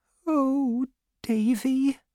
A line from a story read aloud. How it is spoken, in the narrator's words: she said sadly